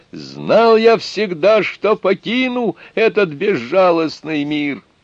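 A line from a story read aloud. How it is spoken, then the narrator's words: Loud shout. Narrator (Russian): Затворник громко закричал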